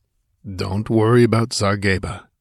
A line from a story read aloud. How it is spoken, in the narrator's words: he grunted